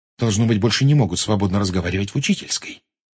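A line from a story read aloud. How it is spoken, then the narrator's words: Quiet. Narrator (Russian): тихо сказала Гермиона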